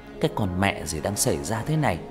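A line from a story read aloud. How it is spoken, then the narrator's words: Muttering. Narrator (Vietnamese): Anh lẩm bẩm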